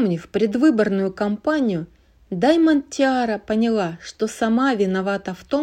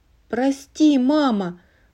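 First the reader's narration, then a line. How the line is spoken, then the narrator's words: Sighing small child. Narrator (Russian): вздохнула маленькая пони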